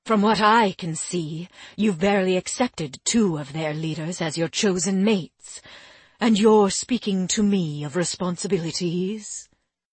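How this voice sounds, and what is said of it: Cutting, cold tone. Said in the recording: “in a cutting voice”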